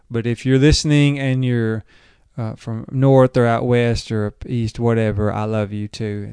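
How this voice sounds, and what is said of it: Southern drawl. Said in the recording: “you can hear my Southern drawl as I talk”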